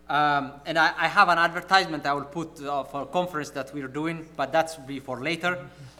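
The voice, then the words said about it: Non-native English accent. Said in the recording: “from my accent I am not originally from Connecticut ... I think my accent betrays me”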